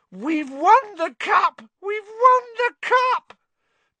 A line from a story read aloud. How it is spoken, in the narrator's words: yelling hoarsely